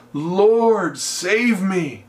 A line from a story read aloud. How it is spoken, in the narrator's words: He cried saying